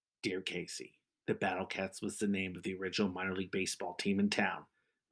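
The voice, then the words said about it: Imitates a radio host's voice. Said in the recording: “my Casey Kasem impersonation”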